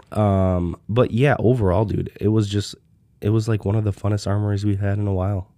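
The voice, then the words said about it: Raspy voice from illness. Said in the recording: “I am getting over a week long sickness, so my voice is fucked up ... a little but, raspy.”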